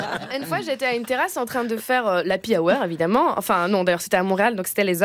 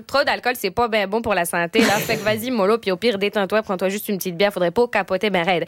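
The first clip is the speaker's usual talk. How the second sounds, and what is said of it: Put-on Québécois French accent. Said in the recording (French): “avec l'accent québécois, tout est mieux”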